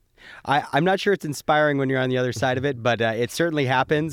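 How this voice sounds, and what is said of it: Slightly congested, cold-affected voice. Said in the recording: “I'm fighting a bit of a cold, so hopefully that helps my radio voice, but if I cough here and there, you'll know why.”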